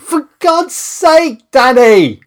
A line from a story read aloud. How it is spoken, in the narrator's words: I shouted through a veil of snotty tears